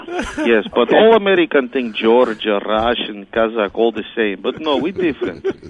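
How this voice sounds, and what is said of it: Russian-sounding Eastern European accent. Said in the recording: “are you from Russia, man? ... I guess you got that accent, man.”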